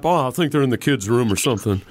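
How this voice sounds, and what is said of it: Imitates another person's voice. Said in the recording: “that was a good impression”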